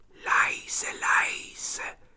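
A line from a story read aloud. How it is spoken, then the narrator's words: Whispering. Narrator (German): flüsterte Petja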